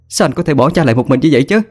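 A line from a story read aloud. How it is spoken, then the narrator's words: Shouting. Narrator (Vietnamese): Hà mà hét lên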